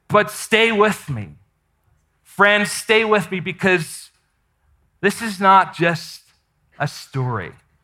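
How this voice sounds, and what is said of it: Unusual noticeable accent. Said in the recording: “your weird accent”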